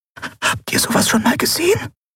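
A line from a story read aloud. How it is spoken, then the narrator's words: Breathy whisper. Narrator (German): hauchte Nelen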